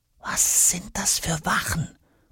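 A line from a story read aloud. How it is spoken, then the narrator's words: Whisper. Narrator (German): flüstert Jonas dem rosa Zahnspangenbehälter zu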